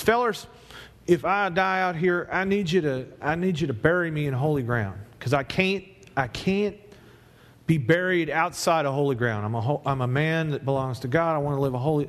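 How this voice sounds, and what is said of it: Put-on Southern US accent. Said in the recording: “I don't even know if that's a Tennessee accent. It's more like Texas, I think.”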